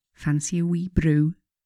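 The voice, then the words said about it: Broad Scottish accent. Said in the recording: “in a broad Scottish accent.”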